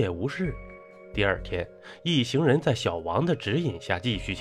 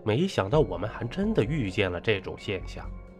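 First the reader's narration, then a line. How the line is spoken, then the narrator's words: Amazed exclamation. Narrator (Chinese): 陈诚也是十分惊异，感叹地说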